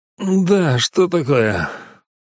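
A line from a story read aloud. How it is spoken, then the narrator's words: Displeased, forced out. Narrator (Russian): Недовольно выдавил я из себя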